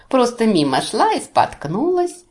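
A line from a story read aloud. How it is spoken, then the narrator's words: Mocking thin squeaky voice. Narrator (Russian): тоненьким голосочком передразнил меня главарь наемников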